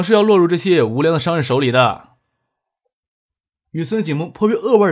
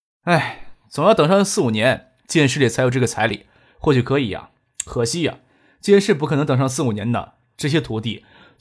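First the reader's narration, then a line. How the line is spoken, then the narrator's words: Sighing. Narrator (Chinese): 张克叹了一口气，说道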